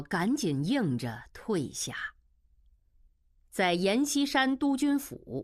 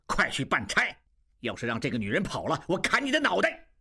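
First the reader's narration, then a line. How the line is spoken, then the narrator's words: Angry. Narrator (Chinese): 金勇怒道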